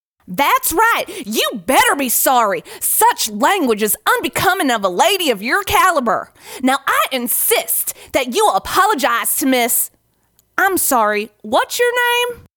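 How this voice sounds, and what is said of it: Cowboy accent. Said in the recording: “scolds the founder with his cowboy accent”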